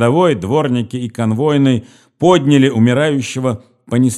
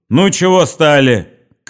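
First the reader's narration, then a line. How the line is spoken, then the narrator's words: Shouted, police officer. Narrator (Russian): крикнул околоточный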